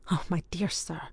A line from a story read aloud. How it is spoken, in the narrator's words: began the latter in a breathless voice